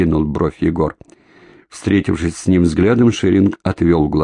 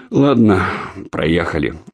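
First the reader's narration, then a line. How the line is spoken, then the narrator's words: Weary speech. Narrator (Russian): устало проговорил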